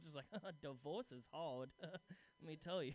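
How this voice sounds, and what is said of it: Comic put-on character voice. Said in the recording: “I just love doing that voice.”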